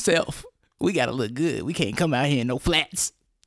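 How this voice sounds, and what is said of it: Mocking impersonation of co-host. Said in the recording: “talking in your ... impersonation voice”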